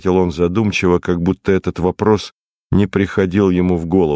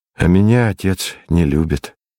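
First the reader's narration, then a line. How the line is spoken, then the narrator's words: Sad. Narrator (Russian): сказал я грустно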